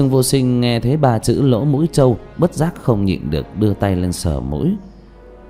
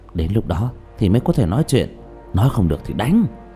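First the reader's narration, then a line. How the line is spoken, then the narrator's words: Low quiet voice. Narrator (Vietnamese): Trương Vô Sanh quay đầu nhìn bảo tháp rồi nhỏ giọng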